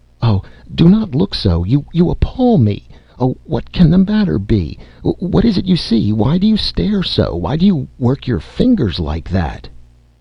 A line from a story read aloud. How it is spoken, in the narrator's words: My aunt cried out